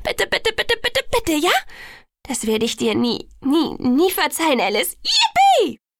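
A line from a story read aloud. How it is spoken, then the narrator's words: Shrieking. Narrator (German): kreischte sie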